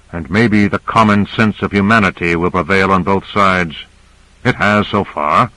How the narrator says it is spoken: Carter said dryly

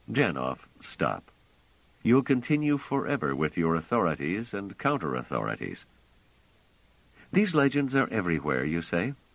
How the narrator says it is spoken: Trevise said gently

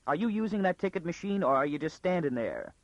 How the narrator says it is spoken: it said irritably

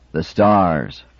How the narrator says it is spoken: Fulaman cried

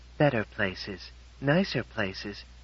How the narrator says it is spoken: she said sadly

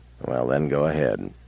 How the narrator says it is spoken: He said in a soft growl

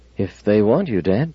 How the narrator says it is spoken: Ben said uneasily

